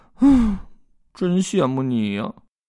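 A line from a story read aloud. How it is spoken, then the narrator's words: Muttering. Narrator (Chinese): 比尔嘟囔着说道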